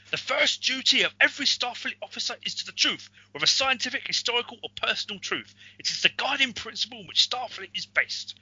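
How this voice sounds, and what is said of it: Poor Captain Picard impression. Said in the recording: “how terrible my uh, my Captain Picard impersonation was there. That was terrible.”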